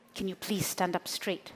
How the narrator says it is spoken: hissed

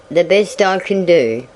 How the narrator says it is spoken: growled the old station agent

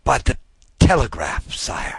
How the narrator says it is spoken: He stammered out

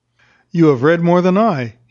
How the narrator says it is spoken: he said, with a sigh

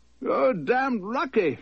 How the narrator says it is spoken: shouted

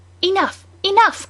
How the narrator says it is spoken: cried some

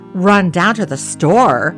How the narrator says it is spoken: thundered

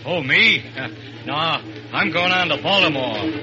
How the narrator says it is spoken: the fat man grunts

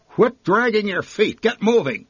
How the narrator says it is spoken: she barked

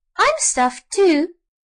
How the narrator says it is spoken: suddenly interrupted a high, squeaky voice

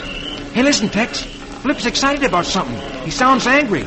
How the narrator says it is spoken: Rusty exclaims

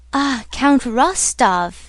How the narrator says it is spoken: exclaimed Pierre joyfully

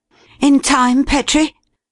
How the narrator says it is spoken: Cleek asked breathlessly

